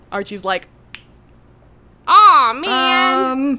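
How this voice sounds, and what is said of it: Cartoon character voice impression. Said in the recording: “That's my swiper no swiping impression”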